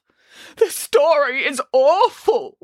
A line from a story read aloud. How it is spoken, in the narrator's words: wailed Boris